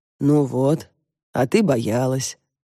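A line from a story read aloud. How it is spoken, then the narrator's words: Gentle smiling. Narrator (Russian): ласково улыбнулся он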